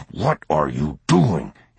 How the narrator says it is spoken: hissed

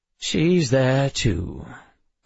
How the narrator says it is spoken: Call said with a bored sigh

